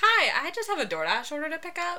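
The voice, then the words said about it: Polite customer service voice. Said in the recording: “customer service voice ... Her name's Rebecca. She's a bitch.”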